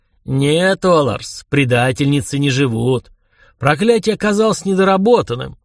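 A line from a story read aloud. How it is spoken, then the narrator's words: Calm. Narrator (Russian): спокойно сказал он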